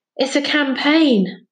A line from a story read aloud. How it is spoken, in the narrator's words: panted a voice behind them